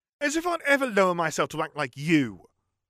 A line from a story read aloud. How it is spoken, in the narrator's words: Ron yelled